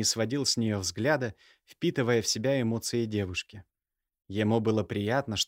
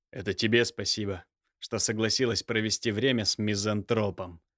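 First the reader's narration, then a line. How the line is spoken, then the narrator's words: Snorting. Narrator (Russian): хмыкнул Михаил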